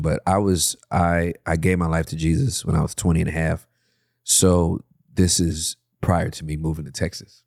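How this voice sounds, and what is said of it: Emotional, moved voice. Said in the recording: “getting emotional”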